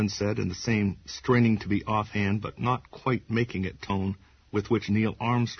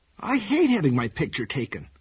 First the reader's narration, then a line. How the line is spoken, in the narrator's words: Meg cried, covering her face with the theatrical anxiety and pleasure which only sub-teenage girls and really bad actresses can manage